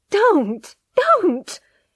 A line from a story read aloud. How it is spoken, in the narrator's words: she cried, her face dead white